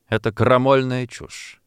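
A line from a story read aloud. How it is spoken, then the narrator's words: Stern remark. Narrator (Russian): строго заметил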